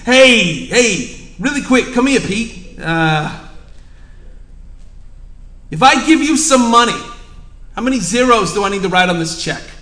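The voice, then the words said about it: Put-on East Coast American accent. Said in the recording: “I just think he's got this East Coast accent.”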